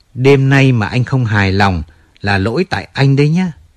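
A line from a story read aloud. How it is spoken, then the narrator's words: Smiling. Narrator (Vietnamese): Lucy mỉm cười bảo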